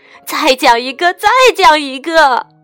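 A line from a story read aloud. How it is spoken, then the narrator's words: Father speaking loudly. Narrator (Chinese): 爸爸大声说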